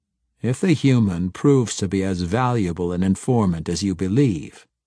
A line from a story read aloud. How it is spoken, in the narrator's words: Jarlaxle added evenly